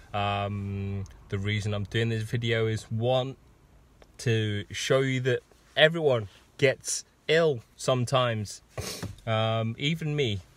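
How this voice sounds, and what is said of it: Husky, deep voice from sore throat. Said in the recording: “I have a very husky, deep voice because I have picked up a sore throat and a bit of a cough”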